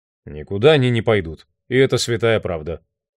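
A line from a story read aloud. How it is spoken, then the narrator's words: Flat colorless voice. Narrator (Russian): бесцветным голосом сказал барни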